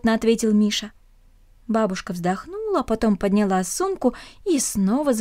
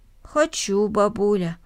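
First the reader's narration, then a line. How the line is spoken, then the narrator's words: Plain. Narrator (Russian): ответил мальчик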